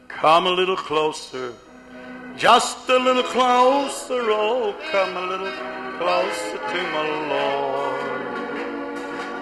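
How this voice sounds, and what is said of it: Slightly hoarse singing voice. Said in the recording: “I'm still a little bit hoarse,”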